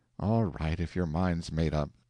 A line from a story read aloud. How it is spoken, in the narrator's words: sighed Sally